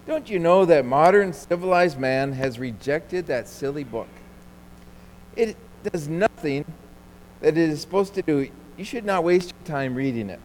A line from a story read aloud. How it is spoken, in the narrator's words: The archaeologist scoffed and said